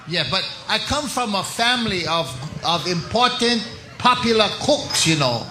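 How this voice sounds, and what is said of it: Put-on Chinese accent character voice. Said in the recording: “Hello, Chinese person. ... A Chinese impersonator.”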